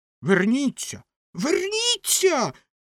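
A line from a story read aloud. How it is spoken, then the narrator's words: Shrieking. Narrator (Ukrainian): заверещала ракета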